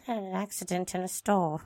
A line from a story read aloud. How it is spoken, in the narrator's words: David replied in a mumbled voice